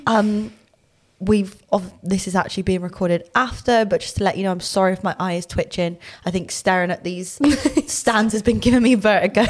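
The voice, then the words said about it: Thick Bristolian accent. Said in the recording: “you're going to very distinctively hear my accent through the podcast. Obviously, very thick Bristolian”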